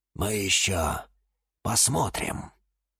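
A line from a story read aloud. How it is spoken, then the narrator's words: Quiet. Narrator (Russian): тихо произнес кактус Кирилл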